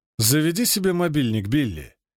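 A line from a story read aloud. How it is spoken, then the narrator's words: Lazy, peremptory bossy tone. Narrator (Russian): говорит Пирс, лениво безапелляционным тоном начальника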